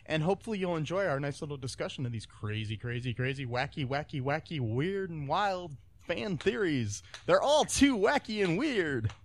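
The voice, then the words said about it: Radio DJ announcer voice. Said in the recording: “I like that DJ voice. ... All of a sudden, you changed into a DJ voice.”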